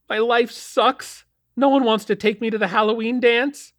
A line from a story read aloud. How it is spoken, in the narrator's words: whined Melody